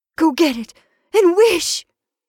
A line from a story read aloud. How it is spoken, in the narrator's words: cried his wife, quivering with excitement